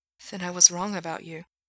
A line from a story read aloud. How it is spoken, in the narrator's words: he whispered